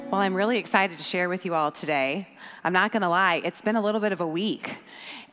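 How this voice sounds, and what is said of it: Hoarse, partly lost voice. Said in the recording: “Maybe you can hear it in my voice. I've been battling a little bit of voice loss.”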